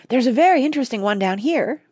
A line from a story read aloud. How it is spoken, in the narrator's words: piped Oliver, who was just learning to read